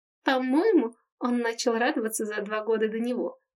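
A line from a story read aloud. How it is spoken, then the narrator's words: Giggle. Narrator (Russian): хихикнула Рика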